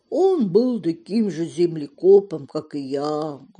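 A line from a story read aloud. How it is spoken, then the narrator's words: Sad answer. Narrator (Russian): грустно ответил мужчина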